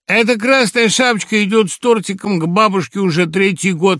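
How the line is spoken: Chuckling. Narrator (Russian): хохотнул Хухрец

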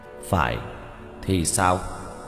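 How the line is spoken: Cold statement. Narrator (Vietnamese): Diệp Thiếu Dương lạnh lùng nói

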